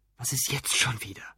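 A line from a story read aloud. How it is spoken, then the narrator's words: Restrained angry whisper. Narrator (German): flüsterte er ins Telefon, bemühte sich aber, Lautstärke und Wut so weit wie möglich in Schach zu halten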